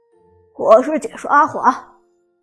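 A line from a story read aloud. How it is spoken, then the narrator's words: Smiling male introduction. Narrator (Chinese): 旁边的男解说也微笑着自我介绍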